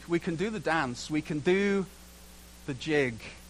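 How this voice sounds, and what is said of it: Put-on Scottish accent. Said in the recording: “I can do the Scottish accent ... I can't say dance now without the Scottish accent coming on”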